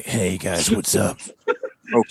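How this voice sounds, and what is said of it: Grumbly, strained gravelly voice. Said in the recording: “talking like really like this, like just kind of weird... Grumbly, yeah... Just putting too much pressure on my chords... Like a bad Batman impression.”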